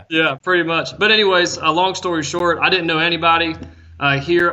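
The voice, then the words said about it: Southern US Appalachian accent. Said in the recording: “you've got the Asheville, North Carolina accent”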